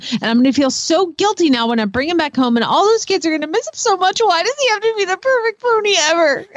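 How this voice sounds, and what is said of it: Whiny reading voice. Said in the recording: “done in a perfect whiny voice”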